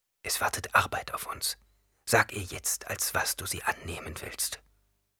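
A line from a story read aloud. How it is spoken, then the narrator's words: Whisper. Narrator (German): Irgendjemand flüsterte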